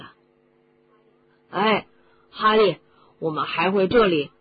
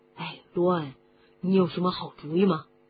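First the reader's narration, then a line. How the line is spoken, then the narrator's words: Low voice. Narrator (Chinese): 哈利低声地说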